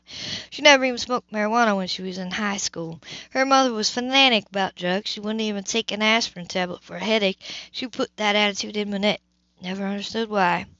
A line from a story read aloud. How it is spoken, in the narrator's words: she said on a sigh